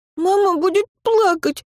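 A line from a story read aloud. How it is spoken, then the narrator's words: Frightened child. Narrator (Russian): испуганно ответил мальчик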